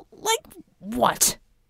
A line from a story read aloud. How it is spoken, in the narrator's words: snapped